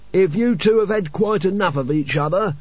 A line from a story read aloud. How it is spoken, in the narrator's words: bellowed Albert above the roar of sand